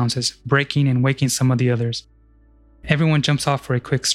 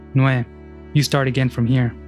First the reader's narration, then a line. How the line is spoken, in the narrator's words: Andrek says